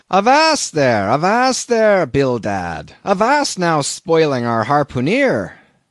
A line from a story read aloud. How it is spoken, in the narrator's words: cried Peleg